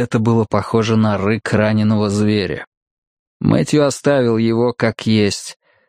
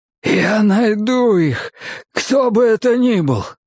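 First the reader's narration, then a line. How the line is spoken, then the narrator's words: Hoarse voice. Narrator (Russian): послышался хриплый голос Рори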